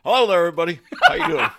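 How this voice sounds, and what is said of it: Booming radio announcer voice. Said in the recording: “Get the radio voice going.”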